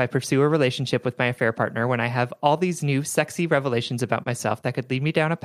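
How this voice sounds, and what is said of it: Usual voice. Nothing is said of it.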